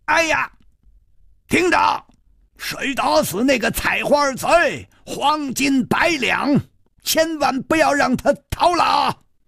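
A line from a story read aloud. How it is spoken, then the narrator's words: Furious shout. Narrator (Chinese): 他气得一张脸都红了，他怒冲冲地挥着刀喊道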